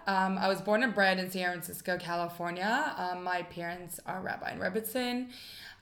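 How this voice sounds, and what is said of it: American accent. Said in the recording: “You're from America, so yes. Everybody can hear the accent.”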